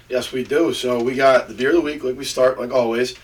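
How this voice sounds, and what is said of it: Hoarse, strained voice. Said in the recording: “I'm losing my voice. I was screaming at my high school playoff football game”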